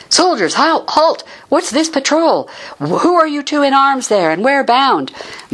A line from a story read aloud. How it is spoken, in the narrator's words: Troop leader Volscens shouted